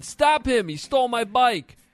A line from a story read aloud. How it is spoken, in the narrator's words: a lady yelling